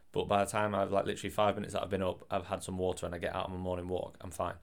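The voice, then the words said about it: Hoarse, sore-throat voice. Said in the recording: “Sorry about my voice as well, by the way. I'm not ill. ... I woke up that morning with a bit of a sore throat”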